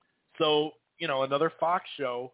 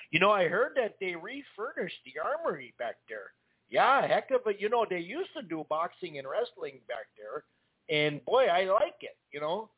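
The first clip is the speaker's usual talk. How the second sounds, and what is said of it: Put-on Minnesota accent. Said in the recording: “my Minnesota accent.”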